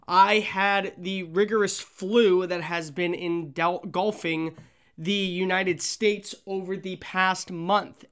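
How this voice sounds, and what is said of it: Sick-sounding, not fully recovered voice. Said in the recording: “I sound a little different ... still you can hear it in my voice, I'm not 100% back”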